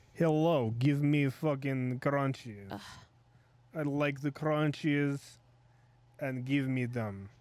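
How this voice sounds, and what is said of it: Put-on Russian accent. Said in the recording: “It has, like, a Russian accent”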